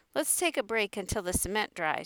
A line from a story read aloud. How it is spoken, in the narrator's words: Sharky said